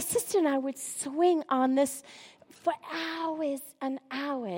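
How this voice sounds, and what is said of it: Usual voice. Nothing is said of it.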